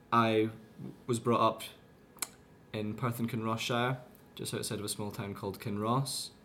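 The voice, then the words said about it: Mixed Scottish accent, English-influenced. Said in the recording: “my accent has never been sort of fully fledged Scottish in this traditional sense... I picked up a few Fife lilts as well, so bits of my accent are kind of picked up from a few different regions”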